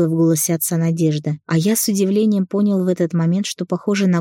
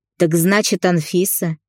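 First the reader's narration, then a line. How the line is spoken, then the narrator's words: Father chuckling. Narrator (Russian): хохотнул отец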